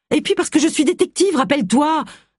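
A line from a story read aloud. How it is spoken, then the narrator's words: Exclaimed. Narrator (French): s'écria Agatha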